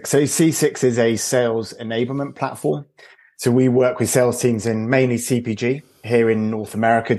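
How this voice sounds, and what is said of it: British accent. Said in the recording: “Despite my accent, I am based just outside New York. We've also got a team back in the UK.”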